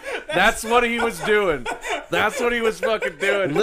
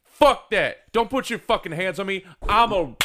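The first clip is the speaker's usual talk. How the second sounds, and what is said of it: Imitates another person's voice. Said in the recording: “do an impression of you”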